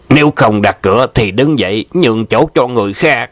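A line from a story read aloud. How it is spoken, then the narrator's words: Shouted. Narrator (Vietnamese): có người quát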